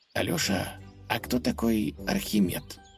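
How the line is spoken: Whispered question. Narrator (Russian): шепотом спросил конь

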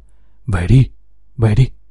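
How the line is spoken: Trembling, urgent, repeated. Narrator (Vietnamese): Anh KS run rẩy luôn miệng giục

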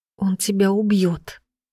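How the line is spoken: Barely audible. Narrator (Russian): сказала она едва слышно

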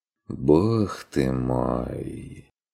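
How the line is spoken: Heavy sigh. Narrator (Russian): Тяжко вздохнул Стрик

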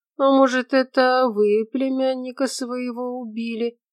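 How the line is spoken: Lazy question. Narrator (Russian): лениво спросил Наполеонов

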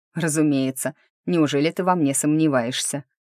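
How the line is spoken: Snort. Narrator (Russian): хмыкнул Лотар

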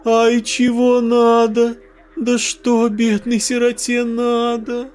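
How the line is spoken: Thin childlike whining voice. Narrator (Russian): Тоненьким детским голоском заныла она

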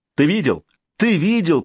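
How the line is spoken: Excited shout. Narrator (Russian): пританцовывая, закричал Ульфор

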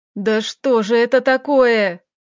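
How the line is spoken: Howling. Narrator (Russian): взвыл

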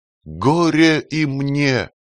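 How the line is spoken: Especially loud exclamation. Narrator (Russian): воскликнул как-то особенно громко

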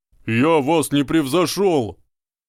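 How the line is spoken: Frantic screaming. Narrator (Russian): Истошно завопил мистер Гойл

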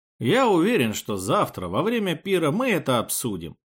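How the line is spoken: Smooth, ingratiating. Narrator (Russian): вкрадчиво заявил Махараджа

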